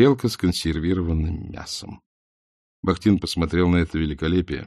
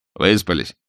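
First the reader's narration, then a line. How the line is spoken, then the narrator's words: Plain. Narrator (Russian): спросил Алфимов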